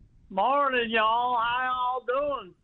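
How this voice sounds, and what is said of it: Attempted Southern country twang. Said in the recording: “develop a country twang in his voice ... That sounded pretty damn good there ... I don't think you got that accent yet.”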